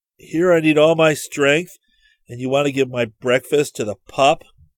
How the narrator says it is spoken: Rick growled

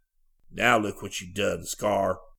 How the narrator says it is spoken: one of the men growled

